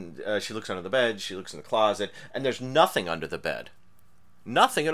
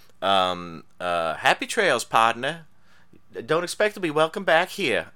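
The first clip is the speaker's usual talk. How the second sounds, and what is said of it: Poor put-on Southern accent. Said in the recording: “I did it poorly, but I like that that's a southern gal doing a southern accent”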